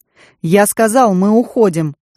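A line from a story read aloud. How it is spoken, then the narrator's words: Sharp bark. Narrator (Russian): рявкнул Дук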